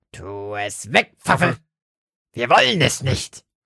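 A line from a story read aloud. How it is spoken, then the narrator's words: Croaking. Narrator (German): krächzte Lotte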